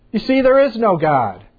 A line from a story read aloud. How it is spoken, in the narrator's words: the atheist began to shout again